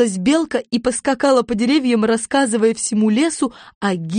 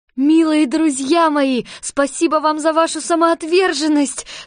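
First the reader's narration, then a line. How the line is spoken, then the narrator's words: Tearful exclamation. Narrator (Russian): со слезами на глазах воскликнула Элли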